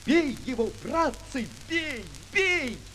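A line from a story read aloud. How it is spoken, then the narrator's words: Sudden piercing shout. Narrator (Russian): вдруг кто-то пронзительно закричал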